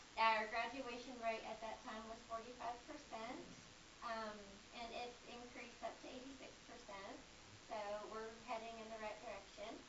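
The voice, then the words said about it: Tennessee Southern accent. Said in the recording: “I was a transport from Tennessee, hence the accent.”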